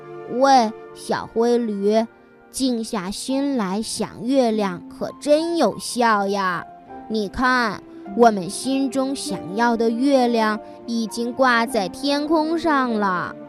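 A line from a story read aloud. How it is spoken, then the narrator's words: Quiet, small animal. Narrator (Chinese): 小猪，它小声地说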